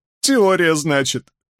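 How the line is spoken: Repeated, close to laughing. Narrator (Russian): повторил он, готовый рассмеяться вновь

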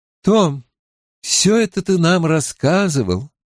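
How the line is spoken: Sad older woman. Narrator (Russian): печально проговорила женщина постарше

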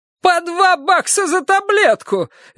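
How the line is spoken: Shriek. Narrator (Russian): визжала она

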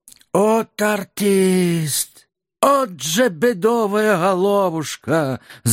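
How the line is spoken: Envious sigh. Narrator (Russian): завистливо вздохнул рядовой Охримчук

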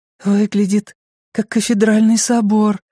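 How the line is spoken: Breathy exhale. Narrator (Russian): выдохнула Беверли

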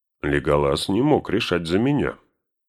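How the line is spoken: Gloomy. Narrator (Russian): мрачно нахмурившись, проговорил Гимли

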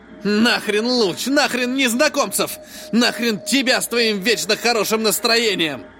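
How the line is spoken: Angry bark. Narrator (Russian): Рявкнул Тиан

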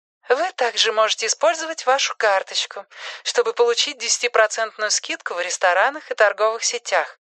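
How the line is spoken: Female robotic voice. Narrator (Russian): сообщает Ходжесу робот с женским голосом

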